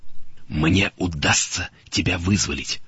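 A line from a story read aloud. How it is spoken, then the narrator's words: Whisper. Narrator (Russian): шепнул Джордж возлюбленный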